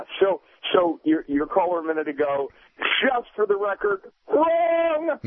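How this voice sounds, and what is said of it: Imitates another person's voice. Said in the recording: “was that your John McLaughlin impression? Because it was spectacular.”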